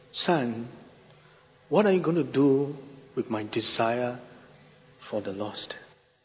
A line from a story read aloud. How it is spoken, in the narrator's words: the Lord gently impressed upon my heart, saying